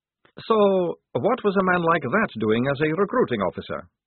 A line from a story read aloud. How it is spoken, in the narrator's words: said Maledict sharply